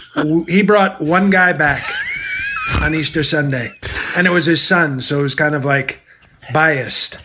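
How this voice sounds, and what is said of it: Imitates another person's voice. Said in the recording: “who is that impersonation? ... That might be my favorite one.”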